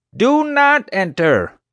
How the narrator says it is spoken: Honecker screamed

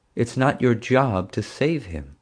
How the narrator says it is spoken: Dad said sadly

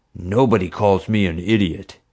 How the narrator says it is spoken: he growled

